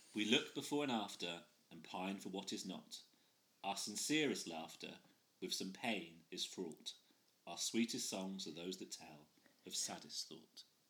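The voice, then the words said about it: Poetry-reading voice. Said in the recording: “in your poetry voice, because I'm assuming it's different to your normal voice”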